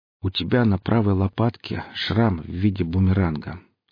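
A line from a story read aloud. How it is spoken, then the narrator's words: Calm. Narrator (Russian): снова заговорил Гриф спокойно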